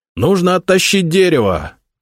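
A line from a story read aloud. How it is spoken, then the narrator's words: Shout. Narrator (Russian): крикнул Никита Михайлович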